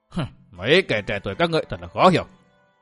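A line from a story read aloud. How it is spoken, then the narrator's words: Resentful muttering. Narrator (Vietnamese): hậm hực bước ra nói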